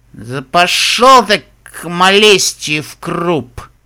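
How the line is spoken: Grumbled. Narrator (Russian): буркнула пони

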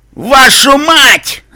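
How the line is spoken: Old man shouting from afar. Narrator (Russian): закричал дедуля Реттл с чердака

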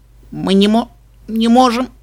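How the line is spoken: Squeak. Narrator (Russian): пискнула Типпи

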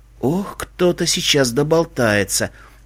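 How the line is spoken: Whispered. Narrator (Russian): прошептала Эпплджек

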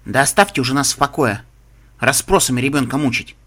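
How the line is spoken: Sharp, curt. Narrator (Russian): резко бросила та

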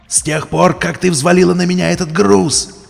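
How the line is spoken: Yelling. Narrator (Russian): заорал он

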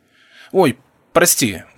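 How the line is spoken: Worried exclamation. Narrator (Russian): воскликнул я с переживанием

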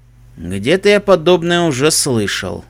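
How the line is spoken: Sighing. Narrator (Russian): вздохнув, произнес Себастьян

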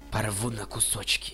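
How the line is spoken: Animal growl. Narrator (Russian): прорычала ракуна

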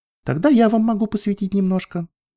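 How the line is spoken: Playful mischievous tone. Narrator (Russian): сказала она озорным тоном

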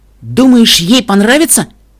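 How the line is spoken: Anxious question. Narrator (Russian): взволнованно спросила Эпплблум

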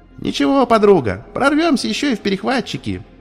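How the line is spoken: Cheerful. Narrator (Russian): весело сказала Дидзи

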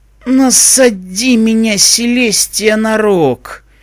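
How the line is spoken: Muttered, pony. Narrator (Russian): пробормотала розовогривая поняшка

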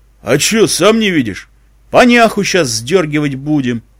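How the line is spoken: Snuffling, rude reply. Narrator (Russian): Палач засопел и грубо ответил

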